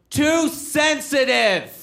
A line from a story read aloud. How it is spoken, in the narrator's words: And then a guy in the audience yells out